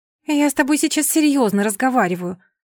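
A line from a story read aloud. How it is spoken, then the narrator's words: Irritated remark. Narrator (Russian): раздраженно заметила ей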